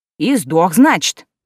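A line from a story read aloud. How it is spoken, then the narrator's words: Clarifying, little man. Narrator (Russian): уточнил мужичок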